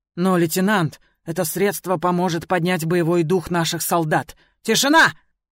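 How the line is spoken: Sudden barked order. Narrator (Russian): Вдруг рявкнул Фан

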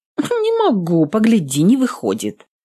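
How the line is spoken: Snorted. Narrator (Russian): фыркнула Нютка

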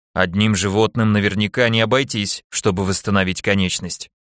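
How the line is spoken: Grumble. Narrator (Russian): проворчал я

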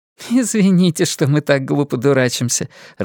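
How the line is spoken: Laughing. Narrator (Russian): рассмеялась Ингрид

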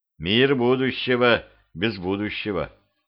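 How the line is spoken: Gloomy. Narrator (Russian): мрачно сказал я

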